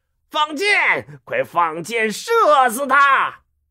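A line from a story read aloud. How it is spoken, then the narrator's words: Angry roar. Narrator (Chinese): 曹操怒吼一声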